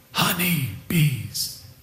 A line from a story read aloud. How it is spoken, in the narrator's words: he whispered